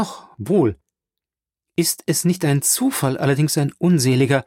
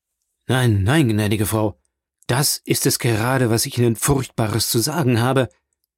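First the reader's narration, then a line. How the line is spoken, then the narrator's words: Hollow, muffled reply. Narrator (German): erwiderte Villefort mit dumpfer Stimme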